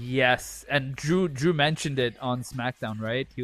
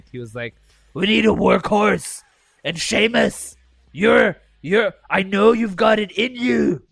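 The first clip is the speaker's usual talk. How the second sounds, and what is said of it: Imitates another person's voice. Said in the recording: “That was my Drew McIntyre impression.”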